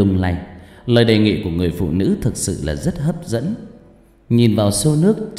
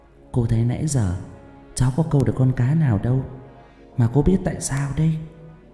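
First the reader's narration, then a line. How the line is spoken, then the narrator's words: Gentle smiling voice. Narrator (Vietnamese): Người phụ nữ lại tiếp tục mỉm cười, nói bằng một giọng nhẹ nhàng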